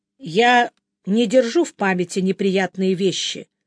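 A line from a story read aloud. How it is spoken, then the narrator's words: Calm admission. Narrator (Russian): спокойно призналась Белилия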